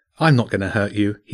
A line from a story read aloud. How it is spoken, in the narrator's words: he said